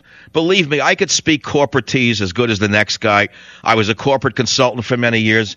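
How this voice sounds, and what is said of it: Authentic New York accent. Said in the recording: “they will listen to the New York accent just as well ... an authentic New York accent”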